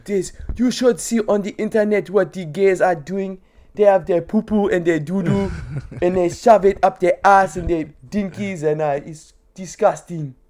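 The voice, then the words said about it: Put-on African accent, Apu-like. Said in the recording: “Every time I went to do an African accent, the Apu voice was coming to my head.”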